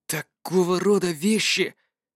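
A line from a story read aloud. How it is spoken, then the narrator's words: Muttered under breath. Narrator (Russian): пробормотал себе под нос Жюль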